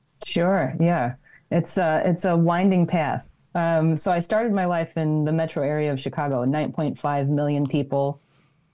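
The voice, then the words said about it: Non-New Zealand accent. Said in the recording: “your accent doesn't sound very Kiwi-like”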